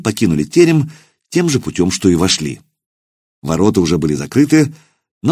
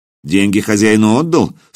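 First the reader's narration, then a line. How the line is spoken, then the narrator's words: Stern question. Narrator (Russian): строго спросил хузарин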